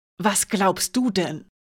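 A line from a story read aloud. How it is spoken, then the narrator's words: Hissed. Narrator (German): zischte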